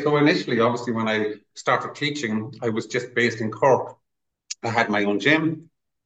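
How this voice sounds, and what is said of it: Irish Cork accent. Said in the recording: “the accent ... you're from Cork”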